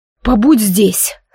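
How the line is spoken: Hoarse voice. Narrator (Russian): сказал он хрипло

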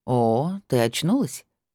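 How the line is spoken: Lazy, drawn-out speech. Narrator (Russian): проговорил он лениво

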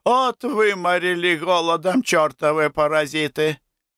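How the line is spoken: Cheerful. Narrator (Russian): сказал весело

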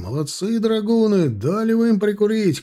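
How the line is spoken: Lively shouting soldiers. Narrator (Russian): кричали задорно стрелки

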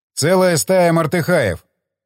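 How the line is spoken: Commander shouting. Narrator (Russian): крикнул командир

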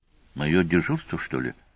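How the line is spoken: Whispered question. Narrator (Russian): шептом спросил он, чтобы не разбудить остальных

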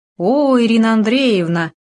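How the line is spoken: Joyful sincere exclamation. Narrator (Russian): радостно воскликнул Демин, его возглас был вполне искренним

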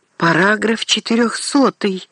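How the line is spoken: Exclaimed. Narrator (Russian): воскликнул Орло

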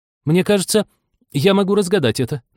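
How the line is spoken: Loud addition. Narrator (Russian): добавила она громко

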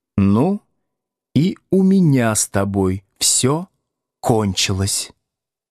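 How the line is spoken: Stated calmly. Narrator (Russian): спокойно заявила Надя

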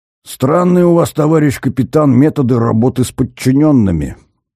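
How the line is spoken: Snapping retort. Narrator (Russian): огрызнулся Шувалов

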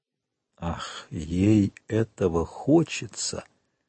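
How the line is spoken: Ominous tone. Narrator (Russian): сказал Вильфор зловещим тоном

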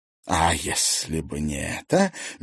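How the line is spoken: Soft, smiling tone. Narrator (Russian): мягко улыбнулся Дубровский

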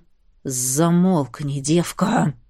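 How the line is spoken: Rough hiss. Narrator (Russian): зашипел он неожиданно грубо

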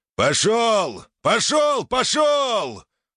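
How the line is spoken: Bald instructor yelling. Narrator (Russian): орал лысый инструктор

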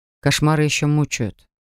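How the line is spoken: Sighing. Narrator (Russian): вздохнул Олес

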